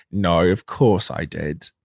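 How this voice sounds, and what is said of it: Put-on Australian accent. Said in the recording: “That's my Australian accent.”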